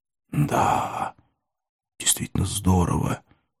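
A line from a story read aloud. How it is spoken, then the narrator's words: Whisper. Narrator (Russian): шепнул один из пришедших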